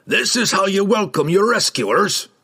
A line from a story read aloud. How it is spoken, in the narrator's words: Brunner barked at them